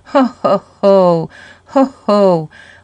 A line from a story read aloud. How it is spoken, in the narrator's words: laughed Santa